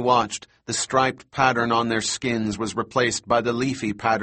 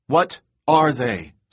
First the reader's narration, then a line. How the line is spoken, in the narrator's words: Sarah said impatiently